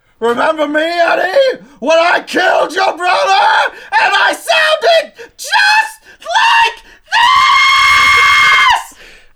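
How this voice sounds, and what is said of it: Impression climbing up in pitch. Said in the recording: “That impression, you hit every note on the way up. That was incredible.”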